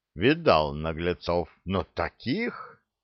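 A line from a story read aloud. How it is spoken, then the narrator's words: Delighted drawl, chuckling old man. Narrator (Russian): восторженно протянул старик, посмеиваясь себе под нос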